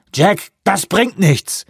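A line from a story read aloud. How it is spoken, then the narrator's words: Shouted. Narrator (German): rief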